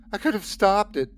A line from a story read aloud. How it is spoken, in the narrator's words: I sobbed